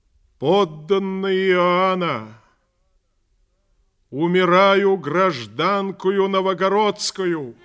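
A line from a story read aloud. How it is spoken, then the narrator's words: Loud address to crowd. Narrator (Russian): громко сказала народу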